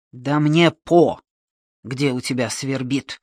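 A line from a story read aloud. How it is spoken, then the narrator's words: Bark. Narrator (Russian): рявкнул Ващенко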